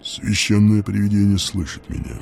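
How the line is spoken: Unexpectedly low voice. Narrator (Russian): сказал он неожиданно низким голосом

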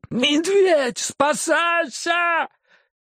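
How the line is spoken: Yelling. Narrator (Russian): А другой как завопит

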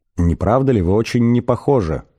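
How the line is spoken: Plain. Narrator (Russian): сказала Триллиан старейшим

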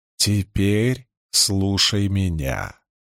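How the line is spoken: Calm. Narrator (Russian): спокойно сказал он

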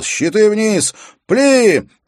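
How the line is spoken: Deep breath, then shouted. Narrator (Russian): сделав глубокий вдох, Уилл закричал

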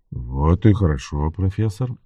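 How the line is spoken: Soft, gentle. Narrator (Russian): мягко сказал Баттл

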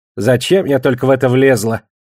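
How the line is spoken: Snorting. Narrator (Russian): фыркнула Жасмин

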